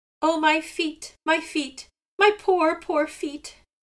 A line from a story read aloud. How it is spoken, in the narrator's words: cried Sea Gull